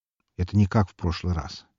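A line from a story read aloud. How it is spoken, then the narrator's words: Quiet. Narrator (Russian): негромко сказал он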